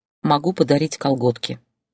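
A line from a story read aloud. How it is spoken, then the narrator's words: Sighing. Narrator (Russian): вздохнула Зойка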